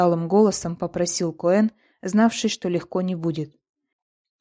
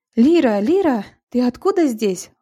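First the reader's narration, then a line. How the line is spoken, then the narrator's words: Exclaimed. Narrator (Russian): воскликнула Сюзанна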